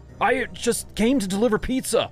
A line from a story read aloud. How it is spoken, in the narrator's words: I cried in alarm